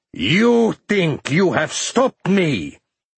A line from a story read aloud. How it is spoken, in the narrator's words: he thundered